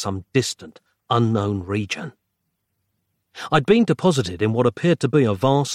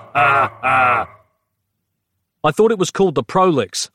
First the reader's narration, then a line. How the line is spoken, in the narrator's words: I yelled back